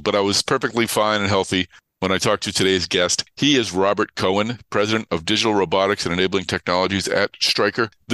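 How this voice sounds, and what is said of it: Voice sounds off from a cold. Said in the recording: “forgive my voice. I think it probably sounds different. I have a bit of a cold,”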